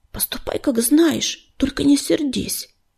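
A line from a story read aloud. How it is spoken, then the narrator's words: Whisper. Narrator (Russian): прошептал он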